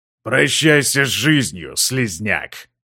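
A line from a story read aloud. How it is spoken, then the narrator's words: Growled. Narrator (Russian): прорычал он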